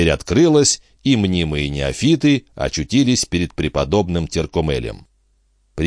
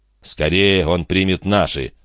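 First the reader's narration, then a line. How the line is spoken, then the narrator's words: Grumbling. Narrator (Russian): пробурчал дядюшка Антифер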